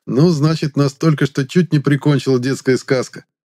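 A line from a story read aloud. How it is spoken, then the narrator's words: Cheerful chuckle. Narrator (Russian): Жизнерадостно хохотнул я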